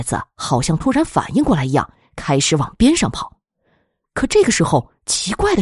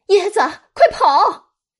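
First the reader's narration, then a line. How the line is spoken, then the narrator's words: Women shouting. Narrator (Chinese): 女人们大声喊道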